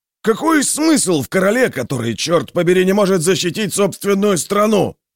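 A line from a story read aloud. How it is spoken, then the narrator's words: Roar. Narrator (Russian): проревел Кленшер или Мустрет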